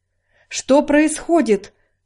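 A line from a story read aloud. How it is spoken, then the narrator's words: Horrified exclamation. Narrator (Russian): с ужасом воскликнул он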